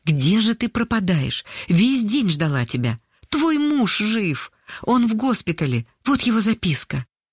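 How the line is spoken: Excited. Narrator (Russian): взволнованно сказала

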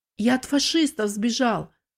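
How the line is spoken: Forced out. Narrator (Russian): выдавил он

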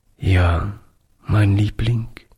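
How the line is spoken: Broken voice. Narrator (German): antwortete Oliver mit gebrochener Stimme

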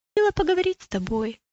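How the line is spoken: Timid. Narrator (Russian): робко сказала она

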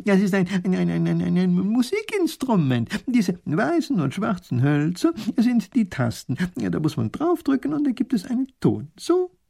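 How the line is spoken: Professor laughing. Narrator (German): lacht der Professor

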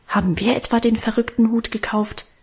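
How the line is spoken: Defiant mutter. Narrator (German): murmelte er trotzig

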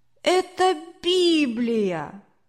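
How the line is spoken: Annoyed boy's exclamation. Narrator (Russian): Мальчик воскликнул досадно

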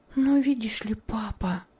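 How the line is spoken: Whisper. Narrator (Russian): сказала она шепотом

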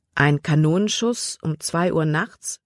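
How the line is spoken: Plain. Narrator (German): fragte Libby

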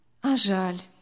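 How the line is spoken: Sad, smiling. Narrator (Russian): печально улыбнулась Виктория

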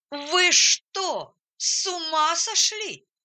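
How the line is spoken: Shouting at top of lungs. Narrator (Russian): закричал во все горло

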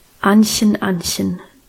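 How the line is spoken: Serious voice. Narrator (German): sagte mit ernster Stimme

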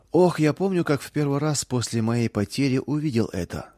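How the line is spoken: Plain. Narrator (Russian): сказал Том

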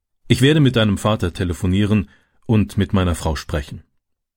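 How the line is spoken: Plain. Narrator (German): sagte der Bauer

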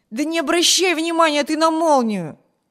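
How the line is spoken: Impatient shout. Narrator (Russian): нетерпеливо крикнул Виберт

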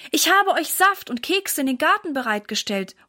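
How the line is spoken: Mother calling out. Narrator (German): ruft Mama ihnen zu

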